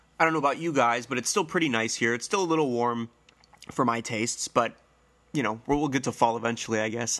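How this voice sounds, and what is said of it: Congested, nasal, slightly hoarse voice. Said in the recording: “My voice might sound a little weird. I'm congested. My nose is running... my voice might still sound a little weird. A little nasally, a little hoarse.”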